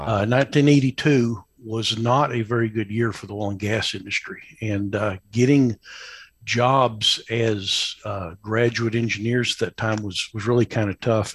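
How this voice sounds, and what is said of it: Slight East Texas drawl. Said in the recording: “I don't have a West Texas accent ... Still got the little East Texas drawl.”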